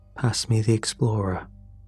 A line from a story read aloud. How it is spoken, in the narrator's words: I said quietly